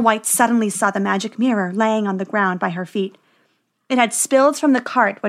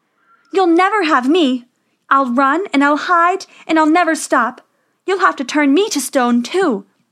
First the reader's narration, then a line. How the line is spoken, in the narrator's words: Snow White cried